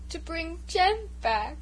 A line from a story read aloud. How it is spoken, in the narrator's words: sobbed Bruce